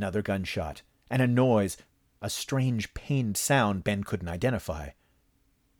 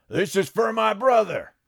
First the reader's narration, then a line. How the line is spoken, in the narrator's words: Johnny Donovan shouted